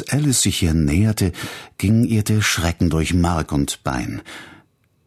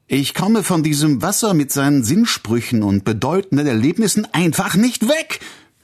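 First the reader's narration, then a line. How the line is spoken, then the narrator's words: Sudden angry shout. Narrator (German): schrie sie in plötzlichem Zorn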